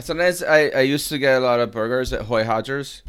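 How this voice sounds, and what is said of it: Bad put-on Brazilian accent. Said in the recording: “That actually sounds like an American really trying to do a bad ... Brazilian impression. I know, it's terrible.”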